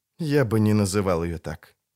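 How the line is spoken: Sad, smiling. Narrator (Russian): грустно улыбнулся Филавандрель

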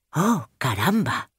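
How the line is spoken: Surprised sigh. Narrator (Spanish): con un suspiro de sorpresa

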